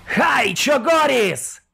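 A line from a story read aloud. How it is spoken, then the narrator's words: Fierce amplified war cry. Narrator (Russian): Ожесточенно прогремел он, боевой клич из вокс-динамика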